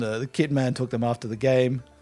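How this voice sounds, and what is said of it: Unclear put-on accent. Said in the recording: “I don't know what accent I'm doing right now.”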